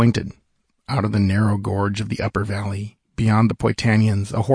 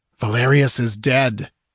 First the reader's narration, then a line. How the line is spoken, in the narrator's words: cried Hadrathus ringingly